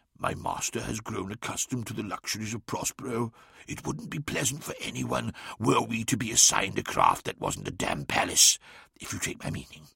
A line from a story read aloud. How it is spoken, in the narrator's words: leaned in and whispered conspiratorially